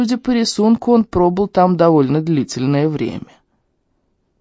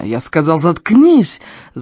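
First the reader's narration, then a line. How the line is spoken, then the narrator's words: Yelling. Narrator (Russian): заорал Эльм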